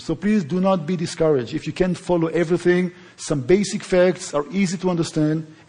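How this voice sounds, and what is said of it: Noticeable foreign accent. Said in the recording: “to get used to my accent.”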